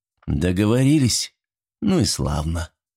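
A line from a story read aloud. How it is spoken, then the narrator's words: Calmer, driver. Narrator (Russian): более спокойно продолжал водитель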